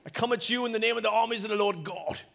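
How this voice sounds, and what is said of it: Poor put-on Scottish accent. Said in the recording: “it's always in a Scottish accent ... real Braveheart ... Terrible accent”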